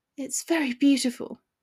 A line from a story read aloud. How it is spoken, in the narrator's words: she mumbled thoughtfully